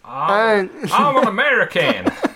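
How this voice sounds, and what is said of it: Exaggerated put-on American accent. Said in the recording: “You could do the accent. ... can't you tell by my outrageous accent?”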